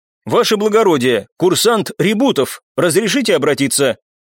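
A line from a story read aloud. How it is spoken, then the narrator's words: Firm voice. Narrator (Russian): парень ... твердым голосом произнес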